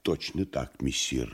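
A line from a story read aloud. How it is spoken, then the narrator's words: Quiet reply. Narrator (Russian): негромко ответил Фагот Коровьев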